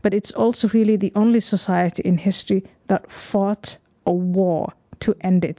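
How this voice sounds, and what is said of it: Noticeable non-native accent. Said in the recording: “I'm sensing an accent. So I'm thinking you probably weren't born here.”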